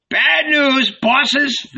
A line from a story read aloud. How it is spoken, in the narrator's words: they shouted, splitting with laughter